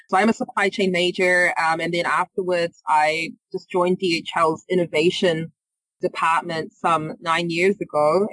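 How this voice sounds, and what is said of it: New Zealand accent. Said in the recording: “You might hear from my accent. I'm not from the area. I'm from New Zealand.”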